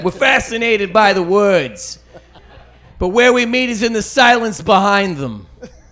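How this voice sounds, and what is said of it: Put-on Boston accent. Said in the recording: “Let's get a different accent. ... I'm close to the Boston, so we'll do that.”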